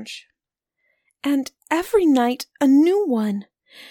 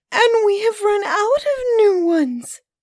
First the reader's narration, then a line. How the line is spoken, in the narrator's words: sobbed Camilla